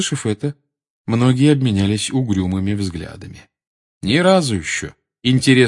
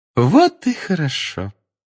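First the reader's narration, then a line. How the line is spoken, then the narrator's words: Sugary singsong. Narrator (Russian): сладким голосом пропела профессор Амбридж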